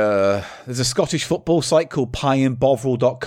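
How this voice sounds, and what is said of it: Usual voice. Nothing is said of it.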